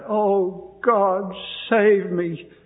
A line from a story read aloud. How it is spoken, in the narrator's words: she cried out